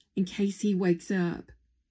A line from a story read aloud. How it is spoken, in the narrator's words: she said